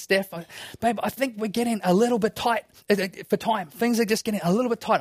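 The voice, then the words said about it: Quiet, hushed speech. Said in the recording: “I'm saying it quietly.”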